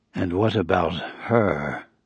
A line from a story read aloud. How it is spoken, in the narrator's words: His voice was hardly audible